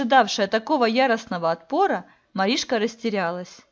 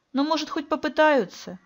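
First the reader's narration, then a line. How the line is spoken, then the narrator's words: Uncertain reply. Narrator (Russian): неуверенно ответила ему Василиса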